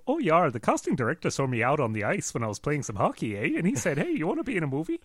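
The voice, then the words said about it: Exaggerated Canadian accent. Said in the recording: “typical American rather than Canadian ... I think she was a little more California than that.”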